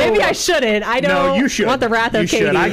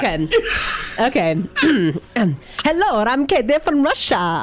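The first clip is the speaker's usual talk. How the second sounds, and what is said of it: Attempted Russian accent, sounds like Mario. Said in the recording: “Katie from Russia impression ... You sound like Mario. ... I did kind of sound like Mario.”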